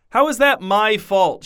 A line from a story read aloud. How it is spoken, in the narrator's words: shouted Alistair